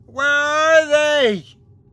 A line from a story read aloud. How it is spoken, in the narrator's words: it screamed